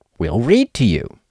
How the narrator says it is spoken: said Rabbit cheerfully

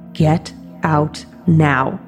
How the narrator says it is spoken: deep, low voice whisper

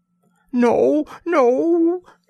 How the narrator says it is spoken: shrieked the terrified woman

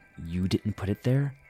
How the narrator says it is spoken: I asked quietly

